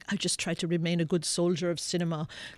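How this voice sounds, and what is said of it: Poor imitation of another person's accent. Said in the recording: “It's a terrible accent.”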